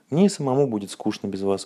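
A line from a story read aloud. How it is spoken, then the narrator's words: Plain. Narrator (Russian): сказал доктор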